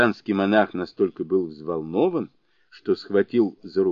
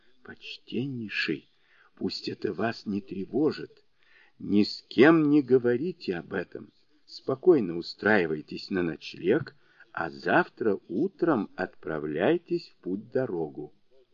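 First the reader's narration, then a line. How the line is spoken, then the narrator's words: Lowered to a whisper. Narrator (Russian): понизив голос до шепота, сказал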